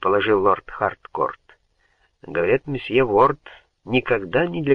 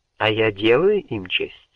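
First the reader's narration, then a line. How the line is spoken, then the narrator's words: Plain question. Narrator (Russian): спросила она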